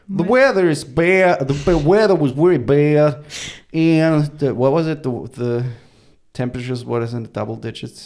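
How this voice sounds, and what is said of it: Put-on accent. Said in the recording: “Do the accent.”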